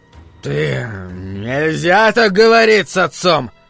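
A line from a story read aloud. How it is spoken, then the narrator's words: Hoarse creature voice. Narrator (Russian): хрипло сказало существо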